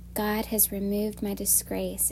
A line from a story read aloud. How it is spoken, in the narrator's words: she said